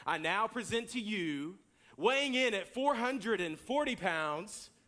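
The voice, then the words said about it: Announcer voice. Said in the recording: “The announcer voice comes on the intercom, and I'm going to do my best”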